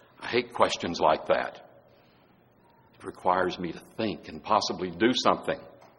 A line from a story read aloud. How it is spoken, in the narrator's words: Now Snoopy turns suddenly glum and mutters to himself